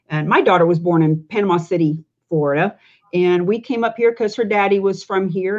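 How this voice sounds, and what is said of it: Speaks with a noticeable accent. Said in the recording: “as you can hear from my accent”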